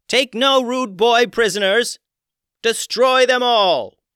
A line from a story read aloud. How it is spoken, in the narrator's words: The dolphin queen yelled